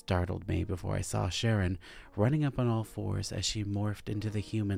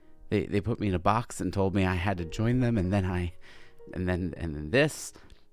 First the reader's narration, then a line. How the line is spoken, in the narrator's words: I stammered incoherently